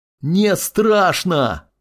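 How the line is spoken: Teenager shouting. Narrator (Russian): закричал подросток

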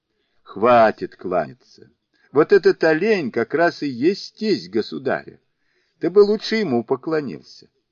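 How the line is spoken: Laughing. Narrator (Russian): Сунь-Укун, смеясь, сказал

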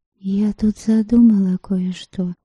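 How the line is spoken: Whispered. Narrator (Russian): шепнула Прицлава

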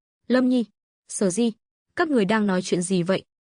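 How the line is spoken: Smiling question. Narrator (Vietnamese): Lộ Thần mỉm cười, hỏi

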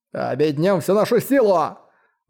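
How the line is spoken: Shouted. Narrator (Russian): Закричал один из 9 экспертов царства Дао

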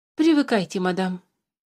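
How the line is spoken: Patronizing tone. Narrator (Russian): покровительственным тоном сказал Туупань

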